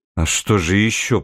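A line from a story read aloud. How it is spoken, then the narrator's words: Muttering. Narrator (Russian): пробормотал Татарский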